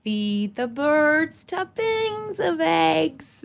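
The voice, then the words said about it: Sung in put-on American accent. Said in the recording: “I'll do it in my American accent.”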